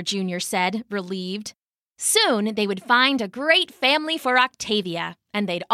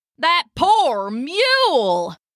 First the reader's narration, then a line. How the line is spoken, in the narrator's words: a nearby wagoner shouted